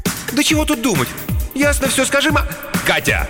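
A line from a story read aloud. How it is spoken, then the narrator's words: Sharp raised voice. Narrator (Russian): Олегу пришлось прикрикнуть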